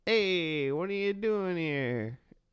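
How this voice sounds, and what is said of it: Put-on New Jersey accent. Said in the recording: “one of them has like a Jersey accent. ... Did I do it right?”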